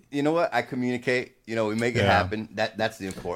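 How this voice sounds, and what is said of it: New Jersey accent. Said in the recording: “When I hear your accent, going back to the Jersey thing”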